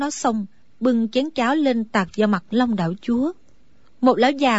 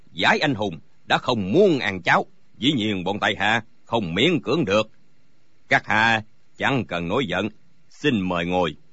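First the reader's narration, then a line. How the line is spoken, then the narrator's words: Surprised, smiling. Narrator (Vietnamese): Long đạo chúa ngạc nhiên mỉm cười nói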